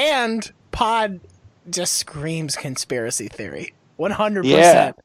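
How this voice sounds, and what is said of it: Usual voice. Nothing is said of it.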